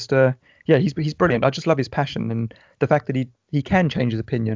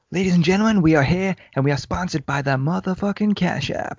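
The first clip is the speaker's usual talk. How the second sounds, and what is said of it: Bad imitation of another person's voice. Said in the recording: “I'm gonna do a very, very bad Joe Rogan impersonation here”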